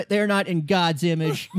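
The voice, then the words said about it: Imitates another person's voice. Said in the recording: “That was a good impression. ... That was really good.”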